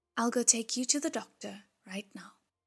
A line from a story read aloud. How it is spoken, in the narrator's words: to comfort him and said in a gentle voice